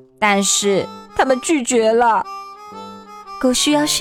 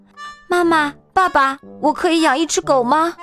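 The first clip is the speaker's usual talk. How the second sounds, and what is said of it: Extremely earnest, pleading voice. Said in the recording (Chinese): “我用极其恳切的声音说道”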